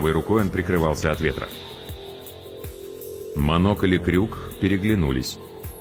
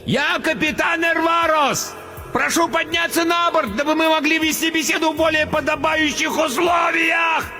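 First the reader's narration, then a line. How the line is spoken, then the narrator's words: Fat man roaring over blizzard. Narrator (Russian): Проревел, перекрывая вой метели, толстяк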